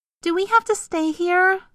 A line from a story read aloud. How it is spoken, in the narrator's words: Forbearance whined